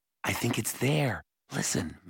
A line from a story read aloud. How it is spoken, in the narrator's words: Mallory whispered